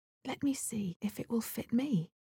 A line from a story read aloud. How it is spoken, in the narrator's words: Cinderella, who saw all this and knew it was her slipper, said to them, laughing